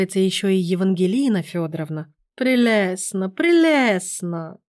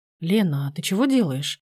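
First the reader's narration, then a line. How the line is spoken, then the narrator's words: Quiet question. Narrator (Russian): тихо уточнил Сергей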